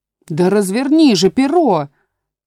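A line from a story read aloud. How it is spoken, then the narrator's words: Sheep shouting. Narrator (Russian): снова закричала овца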